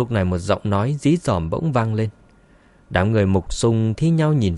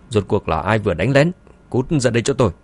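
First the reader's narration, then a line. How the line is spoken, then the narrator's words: Furious, teeth-gritted yell. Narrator (Vietnamese): Ông ta nghiến răng nghiến lợi, giận dữ hét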